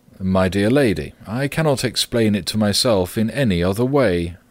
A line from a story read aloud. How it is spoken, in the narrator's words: said the manager